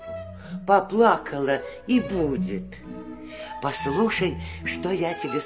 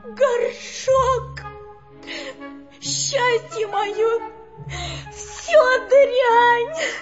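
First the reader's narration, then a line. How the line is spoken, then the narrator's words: Sobbing. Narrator (Russian): Она всхлипывала и только могла сказать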